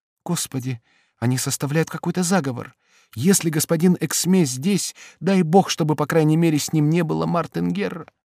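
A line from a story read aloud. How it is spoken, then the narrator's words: Anxious, preoccupied whisper. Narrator (Russian): Этот разговор встревожил Бабетту, и, занятая одной постоянной мыслью, она прошептала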